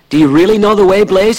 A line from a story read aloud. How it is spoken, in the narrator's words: he cried